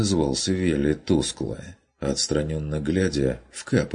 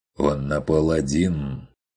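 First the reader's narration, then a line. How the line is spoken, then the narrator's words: Objecting hunter. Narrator (Russian): возразил охотник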